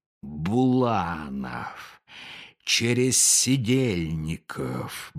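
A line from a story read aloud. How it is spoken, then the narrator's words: Muttering. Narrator (Russian): бормотал он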